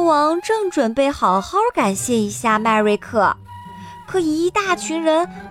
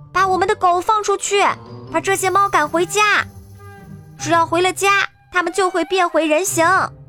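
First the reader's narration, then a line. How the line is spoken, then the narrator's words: Loud shouting. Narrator (Chinese): 麦瑞克大声喊道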